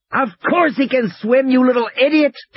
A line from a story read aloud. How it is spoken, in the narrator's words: Tim shouted at her